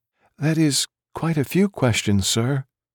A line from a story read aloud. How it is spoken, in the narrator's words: murmured, being out after dark had her so nervous